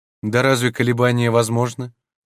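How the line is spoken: Firm voice. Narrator (Russian): твердым голосом отвечала Сефиза

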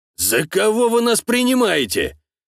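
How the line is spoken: Indignant question. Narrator (Russian): возмущенно спросил

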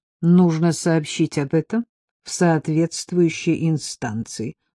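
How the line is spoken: Dry flat tone. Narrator (Russian): сказала высушенным пресным тоном

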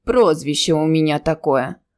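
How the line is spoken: Deep-voiced innkeeper. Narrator (Russian): пробасил корчмарь

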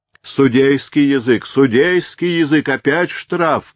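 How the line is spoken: Rowdy crowd shouting. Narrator (Russian): закричали разбушевавшиеся придворные

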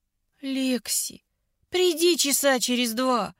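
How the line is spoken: Moaned. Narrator (Russian): Простонала я

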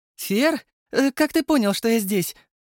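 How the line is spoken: Overly joyful greeting. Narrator (Russian): Слишком радостно встретила меня Ирина

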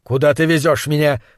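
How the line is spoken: Firm question. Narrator (Russian): спросил он твердым голосом

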